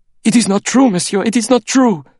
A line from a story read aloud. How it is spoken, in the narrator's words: he cried